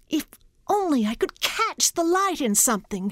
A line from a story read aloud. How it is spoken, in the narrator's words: she cried